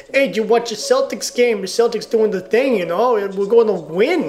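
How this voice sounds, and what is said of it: Poor put-on Boston accent. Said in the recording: “I do a terrible Boston accent.”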